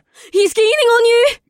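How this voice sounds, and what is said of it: Shrill character voice. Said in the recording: “said in a shrill voice”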